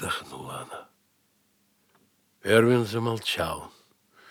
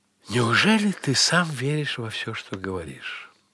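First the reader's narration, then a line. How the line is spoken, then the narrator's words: Sighing. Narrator (Russian): Вздохнула женщина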